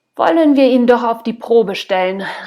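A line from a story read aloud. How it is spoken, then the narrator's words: Old woman calling out. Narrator (German): rief eine weißhaarige Frau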